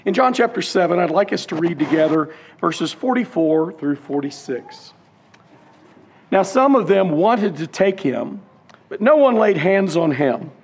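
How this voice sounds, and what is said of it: Slightly hoarse, laryngitis-affected voice. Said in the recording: “I'm recovering from laryngitis, just about over it. Still a little bit that is evident”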